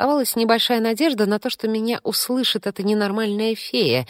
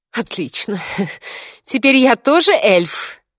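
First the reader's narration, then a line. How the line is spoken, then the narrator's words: Hysterical giggle. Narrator (Russian): истерически хихикнула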